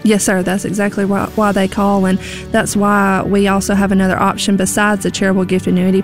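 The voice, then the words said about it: Southern American accent. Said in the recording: “talk in a southern accent like you do”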